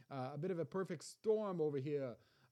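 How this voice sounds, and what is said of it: Half-hearted New York accent. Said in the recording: “That was more of a New York, not even a good New York accent, or not even a 100%. I didn't even give it 100%.”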